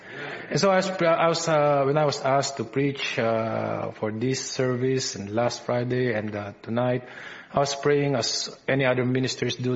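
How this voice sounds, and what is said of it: Filipino English accent. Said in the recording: “my Filipino English accent”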